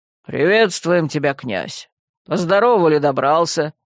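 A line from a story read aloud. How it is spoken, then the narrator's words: Low bass voice. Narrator (Russian): сказал он низким басом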